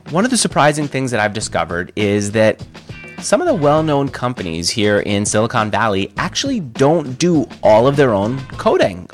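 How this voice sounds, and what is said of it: Slightly congested voice. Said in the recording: “slightly congested ... as you can hear from my voice, I am recovering from a cold”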